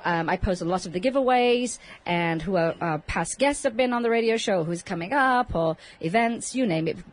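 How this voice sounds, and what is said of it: English accent. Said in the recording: “I have an English accent”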